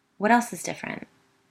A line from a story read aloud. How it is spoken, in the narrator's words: Biddy asked quickly